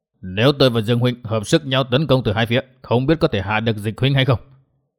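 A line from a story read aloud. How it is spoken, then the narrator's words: Calm, smiling. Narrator (Vietnamese): Dịch Thiên Hành thái độ rất bình tĩnh như không xảy ra một việc gì, lão chỉ mỉm cười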